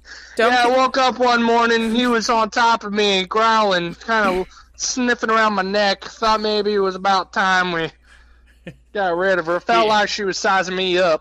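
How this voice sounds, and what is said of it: Put-on Southern US accent. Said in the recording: “you're going south ... I just stick with the South”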